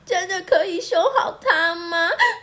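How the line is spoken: Crying question. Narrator (Chinese): 可可哭着问

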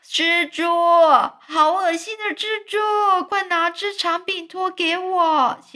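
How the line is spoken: Screaming. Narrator (Chinese): 史胖基姨妈，她就大叫说

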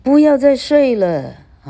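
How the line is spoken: Distant shouting voice. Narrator (Chinese): 空虚虚无中传来的声音继续喊

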